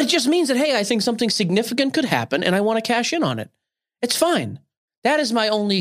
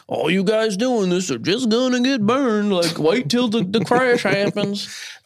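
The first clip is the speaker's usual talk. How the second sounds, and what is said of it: Put-on Southern Texas accent. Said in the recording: “a Texas accent. That sounded that was a little Southern.”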